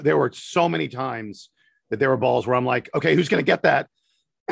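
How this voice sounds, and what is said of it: Strained, worn-out voice. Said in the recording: “my voice is awful because I was screaming so much yesterday”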